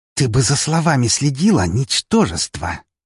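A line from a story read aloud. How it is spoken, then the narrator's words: Hiss. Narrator (Russian): прошипела она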